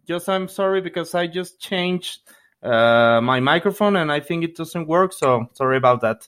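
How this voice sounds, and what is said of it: Non-native English accent. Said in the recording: “I won't apologize for my accent, but please bear with me because I'm translating like in my mind”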